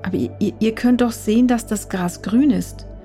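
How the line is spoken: Stammering. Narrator (German): stammelte er

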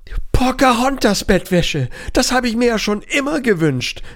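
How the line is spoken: Cat calling out. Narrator (German): rief die Wanderkatze

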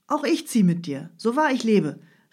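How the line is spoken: Young man calling out. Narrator (German): rief der Student

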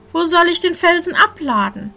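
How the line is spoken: Servant calling out. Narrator (German): rief der Knecht

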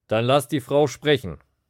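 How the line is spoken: Called out. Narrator (German): rief Kaiaphas

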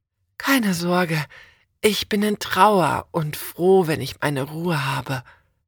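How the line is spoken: Breathy whisper. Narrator (German): haucht sie

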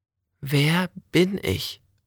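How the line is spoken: Plain. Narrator (German): fragte Olga

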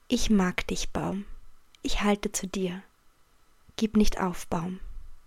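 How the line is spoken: Soft whisper. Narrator (German): Leise flüsterte

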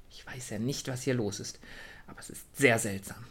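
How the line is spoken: Murmured. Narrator (German): murmelte sie

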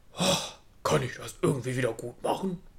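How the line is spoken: Soft grunt. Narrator (German): grunzte es leise

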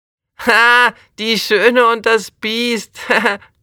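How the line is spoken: Laughing. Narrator (German): lacht Jonas

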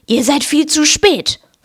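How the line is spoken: Hissed. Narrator (German): fauchte Filch

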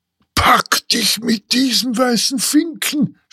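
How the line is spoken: Shouted by bird-catcher. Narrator (German): schrie der Vogelsteller

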